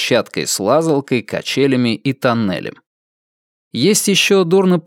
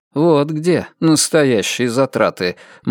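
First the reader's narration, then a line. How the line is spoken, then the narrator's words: Gloomy. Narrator (Russian): мрачно прокомментировал Перси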